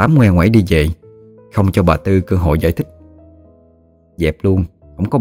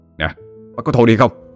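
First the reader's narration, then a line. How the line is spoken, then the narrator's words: Snapping scold. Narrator (Vietnamese): nạt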